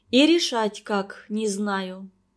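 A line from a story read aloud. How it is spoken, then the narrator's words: Sad sigh. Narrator (Russian): грустно вздохнула она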